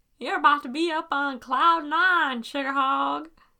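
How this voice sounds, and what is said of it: Bad put-on Southern accent. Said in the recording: “that wasn't a very good accent ... the one thing we can both do is a southern accent ... Bad southern accent”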